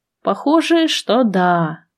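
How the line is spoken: Sighing. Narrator (Russian): вздохнула

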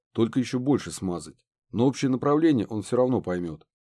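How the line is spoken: Plain. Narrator (Russian): ответил профессор

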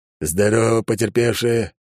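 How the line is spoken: Growl. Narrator (Russian): рыкнул он

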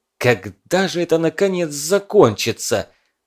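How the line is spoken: Angry hiss. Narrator (Russian): зло прошипел Кузнецов

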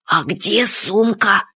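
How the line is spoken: Whispered. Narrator (Russian): шепотом сказал Фадейка

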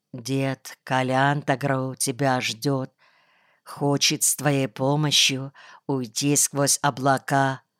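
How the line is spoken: Quiet. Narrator (Russian): Он тихо сказал

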